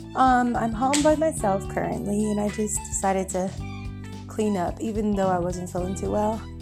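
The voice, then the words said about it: Slightly out of breath. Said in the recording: “I'm a little out of breath, as you can tell.”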